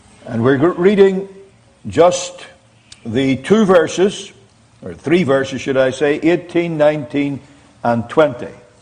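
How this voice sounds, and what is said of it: Northern Irish accent. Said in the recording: “for those of you who don't know what a Northern Irish accent is, this is it. So get used to it, because I'm not going to change.”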